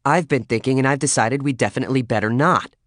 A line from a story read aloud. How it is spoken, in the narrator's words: she snapped